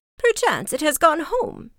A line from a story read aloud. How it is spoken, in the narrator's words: cried she